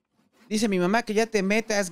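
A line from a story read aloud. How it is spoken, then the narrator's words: Teenager shouting. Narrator (Spanish): gritó el adolescente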